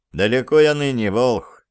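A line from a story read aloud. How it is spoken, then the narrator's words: Sighing. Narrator (Russian): вздохнул Андрей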